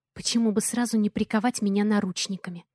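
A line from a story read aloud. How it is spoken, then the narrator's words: Mumbling. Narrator (Russian): Бормочу я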